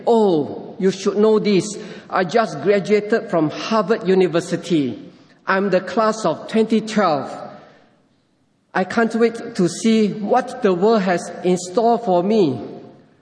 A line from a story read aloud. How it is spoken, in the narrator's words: the young man couldn't help but exclaim